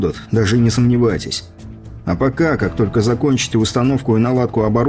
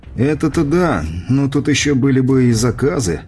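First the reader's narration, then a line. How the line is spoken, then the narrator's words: Engineer's doubtful sigh. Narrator (Russian): с сомнением вздохнул инженер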